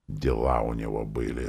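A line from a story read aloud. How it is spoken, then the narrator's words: Parent's grumble. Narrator (Russian): заворчал родитель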